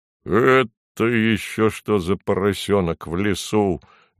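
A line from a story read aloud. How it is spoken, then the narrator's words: Roaring bear. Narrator (Russian): взревел медведь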